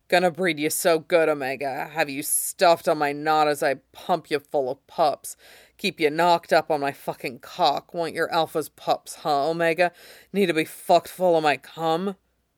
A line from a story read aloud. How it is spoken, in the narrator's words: Johnny growls into his nape